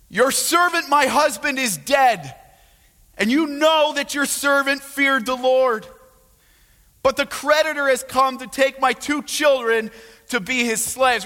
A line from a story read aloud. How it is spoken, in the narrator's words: the wife of one of the sons of the prophets cried to Elisha